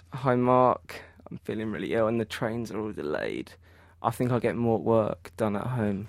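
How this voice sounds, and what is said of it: Put-on sick voice. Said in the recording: “Do your sick voice. If you're feeling up sick, go and do your sick voice.”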